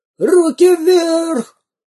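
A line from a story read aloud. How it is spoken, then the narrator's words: Robber yelling. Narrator (Russian): завопил первый разбойник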